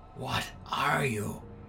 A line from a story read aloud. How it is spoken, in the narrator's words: Finally, I whispered